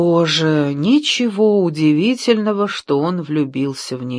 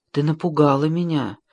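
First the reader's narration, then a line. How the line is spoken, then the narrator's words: Whisper. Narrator (Russian): прошептал он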